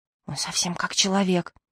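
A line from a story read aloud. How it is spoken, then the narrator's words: Whispering. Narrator (Russian): зашептал Альберт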